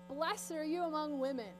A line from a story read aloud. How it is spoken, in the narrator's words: Elizabeth prophesies over her in a loud voice